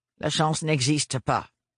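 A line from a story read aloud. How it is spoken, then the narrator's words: Cold interjection. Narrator (French): intervint Octavio d'un ton froid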